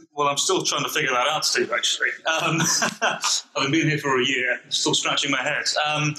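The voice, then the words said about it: British accent. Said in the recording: “his job is mostly to speak with a British accent and sound good”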